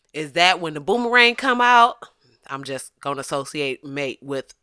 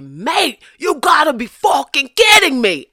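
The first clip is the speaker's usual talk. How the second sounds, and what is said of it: Attempted Australian accent drifting Bostonian. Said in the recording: “I don't know what that accent is. I just want to apologize to people from Boston... I was trying to give you some down under, but I feel like it definitely turned Matt Damon toward the end”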